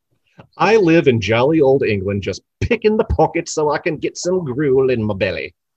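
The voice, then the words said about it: Poor put-on British accent. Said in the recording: “a horrible British accent”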